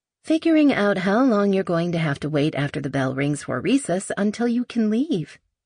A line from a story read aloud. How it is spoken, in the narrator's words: she said sweetly